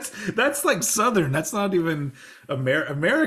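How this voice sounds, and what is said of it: Usual voice. Nothing is said of it.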